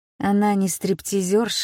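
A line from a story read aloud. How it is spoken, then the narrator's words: Muttering. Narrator (Russian): бормочу я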